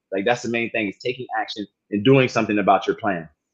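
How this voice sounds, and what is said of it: Southern US accent. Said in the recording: “I got my little down south accent sometimes”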